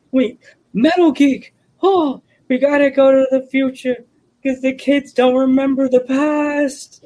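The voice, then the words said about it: Doc Brown character voice. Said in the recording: “my Doc Brown impression.”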